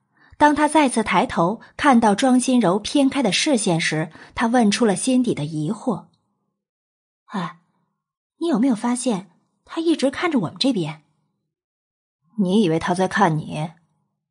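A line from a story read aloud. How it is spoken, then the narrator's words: Irritable question. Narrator (Chinese): 黄甫臣没好气的问他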